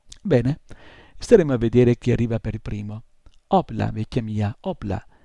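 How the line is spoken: Exclaimed. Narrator (Italian): esclamò

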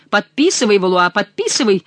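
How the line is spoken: Thunderous shout. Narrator (Russian): закричал громовым голосом Гуранфло

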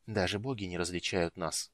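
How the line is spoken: Muttered. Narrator (Russian): пробормотал Рейстлин

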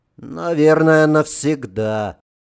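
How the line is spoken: Sighing. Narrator (Russian): вздохнул Светлов

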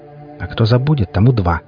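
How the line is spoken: Snapping back. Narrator (Russian): огрызнулась Хип

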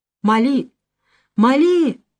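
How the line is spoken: Young men shouting desperately. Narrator (Russian): закричали в отчаянии юноши

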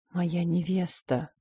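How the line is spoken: Muttered. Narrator (Russian): пробормотал он

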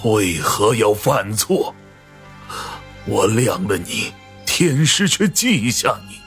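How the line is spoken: Deeply pained voice. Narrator (Chinese): 声音无比痛心

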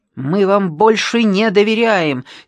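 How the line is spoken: Angry shout. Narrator (Russian): сердито крикнул Ящиков

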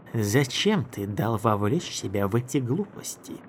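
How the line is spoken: Plain. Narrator (Russian): сказала она

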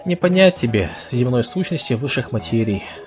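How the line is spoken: Sighing captain. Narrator (Russian): вздохнул капитан

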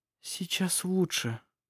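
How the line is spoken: Whispered. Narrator (Russian): прошептала она

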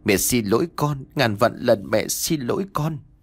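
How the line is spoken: Tearful, whimpering. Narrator (Vietnamese): Bà Biên vừa mếu máo vừa nói

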